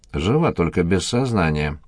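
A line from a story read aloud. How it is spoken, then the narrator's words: Grumbling. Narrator (Russian): пробурчал Димка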